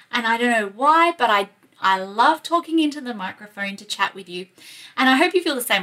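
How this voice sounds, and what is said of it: Australian accent. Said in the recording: “my Aussie accent”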